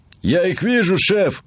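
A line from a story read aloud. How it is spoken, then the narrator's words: Rat shouting. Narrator (Russian): крикнул первый крыс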